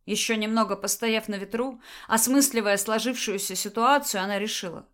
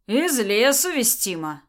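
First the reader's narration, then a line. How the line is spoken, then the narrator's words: Answer with a chuckle. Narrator (Russian): ответил ей Макс, хохотнув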